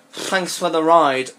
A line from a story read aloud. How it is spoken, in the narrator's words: I mumbled